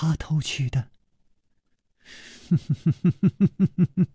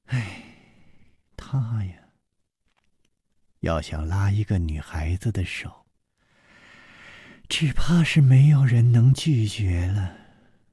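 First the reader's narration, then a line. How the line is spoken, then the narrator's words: Sighing. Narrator (Chinese): 苏蓉蓉叹道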